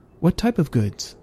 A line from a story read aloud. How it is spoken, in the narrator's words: asked